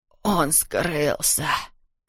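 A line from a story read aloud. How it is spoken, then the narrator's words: Hoarse whisper. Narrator (Russian): прошептал господин Шемельман хриплым голосом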